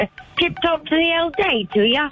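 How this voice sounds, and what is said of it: Put-on British accent. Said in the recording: “I could maybe do like a British accent”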